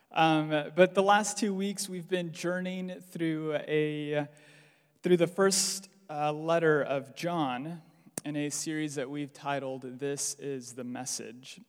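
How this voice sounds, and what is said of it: American accent. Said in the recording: “you'll have to hear an American accent”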